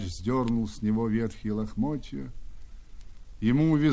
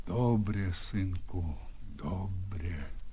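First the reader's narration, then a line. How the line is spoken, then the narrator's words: Quiet, subdued. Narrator (Russian): сказал тихо Бульба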